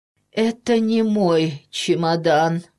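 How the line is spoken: Hoarse frightened roar. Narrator (Russian): Петька хрипло заревел от страха

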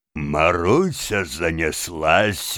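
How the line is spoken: Laughing like a child. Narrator (Russian): говорил он, смеялся, как дитя

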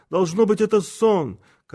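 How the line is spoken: Shouting. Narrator (Russian): Он закричал

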